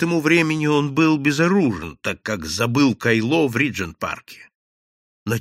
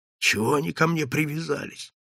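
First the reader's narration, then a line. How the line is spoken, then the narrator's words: Grumbling young giant. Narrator (Russian): ворчал молодой гигант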